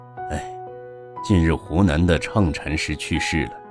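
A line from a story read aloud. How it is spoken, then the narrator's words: Sighing. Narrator (Chinese): 学僧叹了口气说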